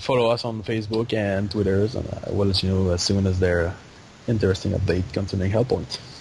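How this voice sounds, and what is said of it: Speaker's own accent. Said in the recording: “my accent is not serving me on that one”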